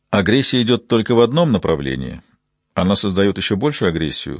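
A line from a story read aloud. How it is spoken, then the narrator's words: Dry reply. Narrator (Russian): сухо ответил Купер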